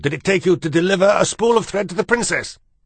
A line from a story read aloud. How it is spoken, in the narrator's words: she roared